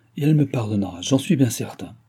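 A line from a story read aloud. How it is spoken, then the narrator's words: Firm voice. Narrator (French): répondit d'une voix ferme le gouverneur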